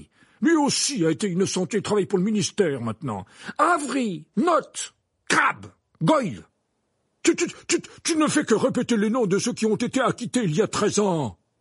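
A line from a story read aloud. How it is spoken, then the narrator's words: Angry exclamation. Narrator (French): s'exclama Fudge avec colère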